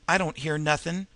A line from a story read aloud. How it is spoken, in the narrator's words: said Pinkie Bond anxiously